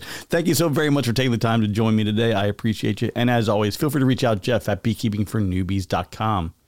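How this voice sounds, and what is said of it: Slightly hoarse, rough morning voice. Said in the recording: “This is the first time I have spoken today, and I can hear it in my voice... Wow, that was a little bit rough... things are a little hoarse this morning”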